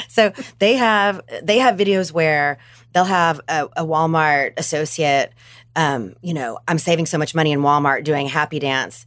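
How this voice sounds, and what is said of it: Arkansas Southern American accent. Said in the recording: “They're an Arkansas company, which is where I'm from ... If you haven't noticed her voice ... Beautiful accent”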